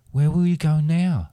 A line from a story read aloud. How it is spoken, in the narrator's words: Spoon asked nervously